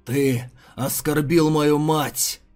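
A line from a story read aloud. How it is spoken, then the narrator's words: Strangled hellish growl. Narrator (Russian): Это сдавленное рычание, казалось, вырвалось из самой преисподней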